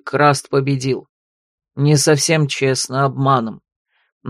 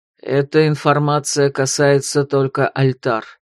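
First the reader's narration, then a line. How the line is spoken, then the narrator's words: Muffled reply. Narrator (Russian): глухо ответил Арденвейн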